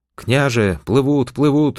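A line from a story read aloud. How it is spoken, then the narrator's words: Joyful shouting. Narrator (Russian): радостно кричал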